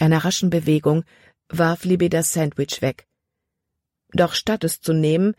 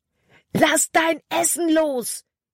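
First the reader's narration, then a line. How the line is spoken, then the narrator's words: Shouting. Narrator (German): schrie Caleb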